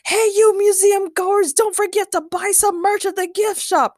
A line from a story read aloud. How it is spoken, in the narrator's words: Ray shouted